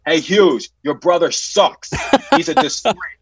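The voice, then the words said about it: Shouting at the top of lungs. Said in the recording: “I'm yelling from the top of my lungs”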